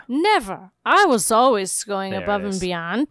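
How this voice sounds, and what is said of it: Slurred drunk character voice. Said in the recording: “starting to slur their words a bit ... I'll do drunk Spike ... sloppy”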